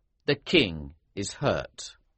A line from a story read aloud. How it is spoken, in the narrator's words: replied sternly